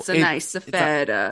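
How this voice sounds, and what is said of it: Put-on Italian accent. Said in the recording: “Why did I do an Italian accent for cheese?”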